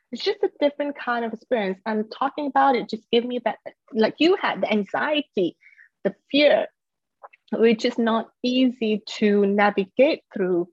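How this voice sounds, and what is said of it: Slight English accent. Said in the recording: “i lived in England before. you can tell, there's a little bit of an English accent there.”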